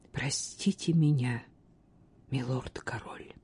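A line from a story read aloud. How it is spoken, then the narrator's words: Quiet. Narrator (Russian): тихо сказала она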